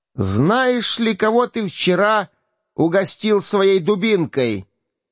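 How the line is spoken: Shout from outside. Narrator (Russian): крикнул голос снаружи

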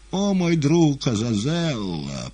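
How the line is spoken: Pained moan, bleeding cat. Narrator (Russian): простонал кот, истекая кровью

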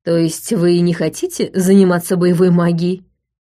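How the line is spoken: Plain. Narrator (Russian): спросил Джошуа Лотт

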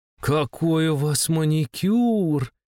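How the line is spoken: Admiring drawl. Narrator (Russian): восхищенно протянула Дольче

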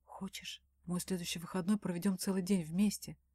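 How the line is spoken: Whispered question. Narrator (Russian): шепотом спрашивает Данил

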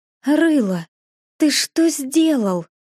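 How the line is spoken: Breathed out, barely restrained fury. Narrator (Russian): выдохнула она, понимая, что еще чуть-чуть, и она прихлопнет мужа

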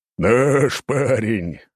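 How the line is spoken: Big man's loud laughter. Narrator (Russian): расхохотался здоровяк

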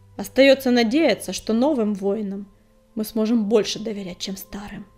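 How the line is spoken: Grim barking. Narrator (Russian): мрачно рявкнула

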